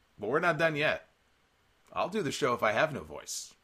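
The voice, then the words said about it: Strained, failing voice. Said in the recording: “I am losing my voice here.”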